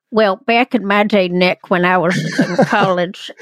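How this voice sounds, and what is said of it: Put-on Charleston accent. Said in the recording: “Charleston accent. ... That's my Charleston.”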